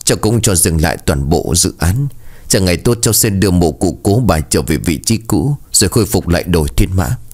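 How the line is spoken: Sighing, halting, guilty voice. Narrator (Vietnamese): Tiếng thở dài của anh vang lên rõ ràng trong không gian tĩnh lặng, sau đó là giọng nói ngắt quãng nom chừng đầy tội lỗi

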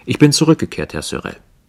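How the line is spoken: Confident, matter-of-fact tone. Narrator (German): sagte mit sicherem Ton, wie jemand, der eine Auskunft bringt

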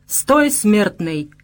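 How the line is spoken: Booming like many orcs. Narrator (Russian): прогудел он, как десяток орков сразу

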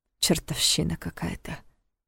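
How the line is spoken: Muttered. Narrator (Russian): пробормотал

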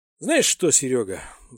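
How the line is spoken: Sighing. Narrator (Russian): вздохнул лейтенант Прохоров

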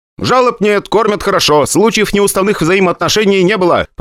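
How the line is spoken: Rapid soldier's patter. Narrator (Russian): протараторил боец

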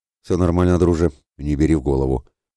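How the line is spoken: Dismissive chuckle. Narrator (Russian): хмыкнул Святослав, доедая свой ужин

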